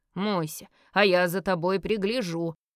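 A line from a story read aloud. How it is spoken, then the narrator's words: Menacing declaration. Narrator (Russian): грозно заявила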